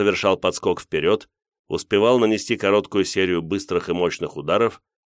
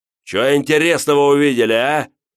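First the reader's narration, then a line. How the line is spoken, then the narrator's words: Shouted across hall. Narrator (Russian): закричал он нам через половину зала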